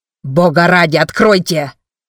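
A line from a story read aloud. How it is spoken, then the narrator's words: Straining yell. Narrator (Russian): заорал, надрываясь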